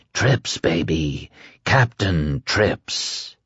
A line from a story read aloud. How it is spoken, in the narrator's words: He is whispering